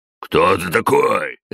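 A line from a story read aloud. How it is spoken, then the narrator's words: Big man barking. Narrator (Russian): рявкнул здоровяк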